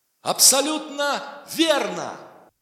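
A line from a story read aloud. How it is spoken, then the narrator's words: Shouting host. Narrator (Russian): прокричал ведущий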